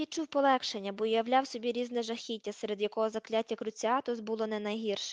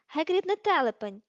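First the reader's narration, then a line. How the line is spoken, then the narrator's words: Sharp exclamation. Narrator (Ukrainian): різко вигукнула Герміона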